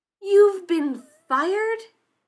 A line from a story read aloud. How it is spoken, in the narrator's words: He shouted